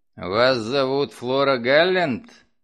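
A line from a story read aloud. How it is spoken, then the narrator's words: Growled. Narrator (Russian): прорычал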